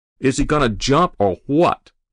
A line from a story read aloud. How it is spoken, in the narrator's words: the fireman shouted